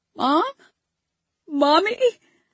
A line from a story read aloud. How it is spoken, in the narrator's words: I squeaked out, even though I already knew the truth